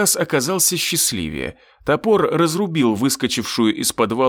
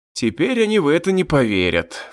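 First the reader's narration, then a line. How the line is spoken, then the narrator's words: Sighing. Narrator (Russian): вздохнул я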